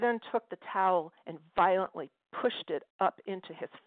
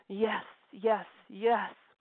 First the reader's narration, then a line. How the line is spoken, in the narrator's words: he cried out in ecstasy